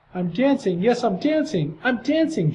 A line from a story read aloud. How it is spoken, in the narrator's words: Gerald cried